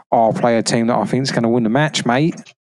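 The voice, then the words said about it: Put-on Australian accent. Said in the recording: “Let's don't do an Australian accent again”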